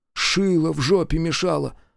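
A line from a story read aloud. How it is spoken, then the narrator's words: Offended mutter. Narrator (Russian): обиженно пробормотал Колька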